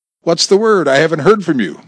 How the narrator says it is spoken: Bob said sharply

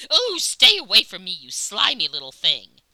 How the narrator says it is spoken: Recoiling in disgust, she cried

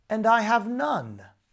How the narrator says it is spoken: cried the young man

